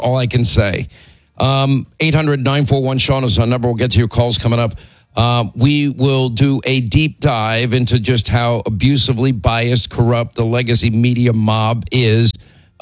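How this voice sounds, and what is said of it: Hoarse, laryngitis-strained voice. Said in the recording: “I don't want to hear it about my laryngitis.”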